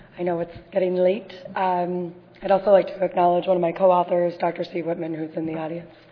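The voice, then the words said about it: Rough, hoarse voice. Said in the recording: “Pardon my voice, that's a little on the rough side.”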